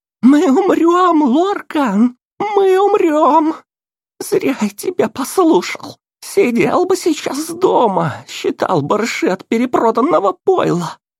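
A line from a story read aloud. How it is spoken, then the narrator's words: Shrill thin panicked voice. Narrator (Russian): Голос визгливый и тонкий, с нотками паники раздался из проема люка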